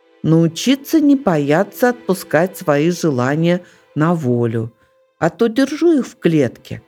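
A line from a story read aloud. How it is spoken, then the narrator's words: Plain. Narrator (Russian): ответила сова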